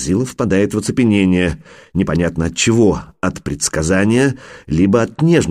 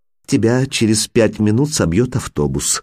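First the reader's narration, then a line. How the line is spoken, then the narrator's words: Affectionate. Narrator (Russian): ласково говорю я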